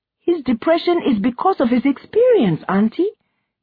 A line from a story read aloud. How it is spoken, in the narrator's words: Ifemelu said, her voice rising